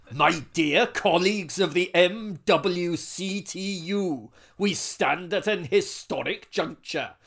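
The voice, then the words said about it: Put-on Welsh accent, oratorical. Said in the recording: “try this in a Welsh accent ... Serious oratory in Welsh”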